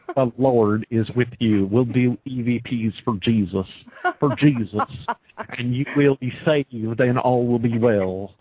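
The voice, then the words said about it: Imitates a preacher's voice. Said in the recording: “your imitation of the preacher”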